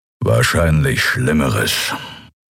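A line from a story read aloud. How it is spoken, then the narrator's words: Growling from behind. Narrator (German): knurrte Kero hinter ihnen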